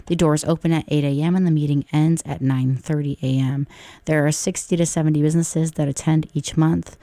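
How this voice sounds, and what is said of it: Hoarse, strained, nearly lost voice. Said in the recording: “my voice sounds terrible. I sound like ET. I lost my voice”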